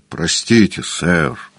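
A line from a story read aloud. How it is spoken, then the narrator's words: Mumbled. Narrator (Russian): пробормотал Вейн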